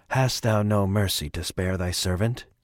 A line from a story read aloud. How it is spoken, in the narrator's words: Wheelwright spoke, his voice soft and wet